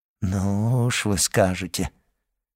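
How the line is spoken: Cheerless drawl. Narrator (Russian): протянул Данглар, невесело улыбаясь

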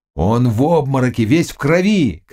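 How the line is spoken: Others shouting. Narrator (Russian): кричали другие

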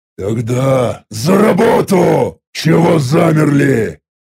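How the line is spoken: Commanding growl. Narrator (Russian): Повелительно рыкнул я

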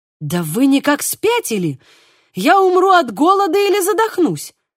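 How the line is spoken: Alarmed male exclamation. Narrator (Russian): воскликнул он, разгадав намерения остальных

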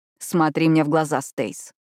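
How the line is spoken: Rough command. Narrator (Russian): грубо приказывает Кайт

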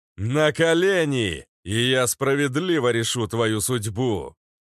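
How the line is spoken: Roar. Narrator (Russian): Рыкнул

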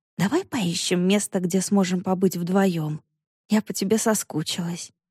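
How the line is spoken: Whisper in ear. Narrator (Russian): Саша прошептала на ухо

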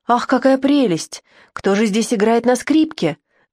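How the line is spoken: Exclamation. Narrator (Russian): воскликнула

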